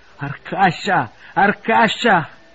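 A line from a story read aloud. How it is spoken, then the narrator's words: Shouted. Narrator (Italian): gridò Kirsanov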